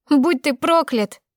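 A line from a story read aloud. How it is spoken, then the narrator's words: Screaming through tears. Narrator (Russian): закричала я сквозь слезы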